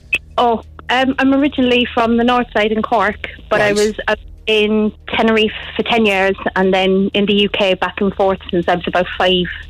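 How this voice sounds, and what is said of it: Blended mixed accent. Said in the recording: “You've got a lovely accent ... It's like a blend of something ... You've got a fully blended accent”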